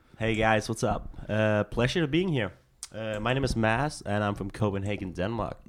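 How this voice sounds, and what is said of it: Speaks with a foreign accent. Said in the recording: “the first person we've had on the show with an accent.”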